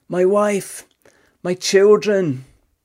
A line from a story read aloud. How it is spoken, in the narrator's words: One of the men, Franciszek Gajonicek, cried out